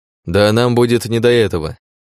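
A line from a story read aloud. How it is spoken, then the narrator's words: Chuckling. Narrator (Russian): хохотнул Александр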